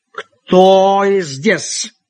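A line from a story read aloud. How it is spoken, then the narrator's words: Angry accented voice. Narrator (Russian): спросил сердитый голос с акцентом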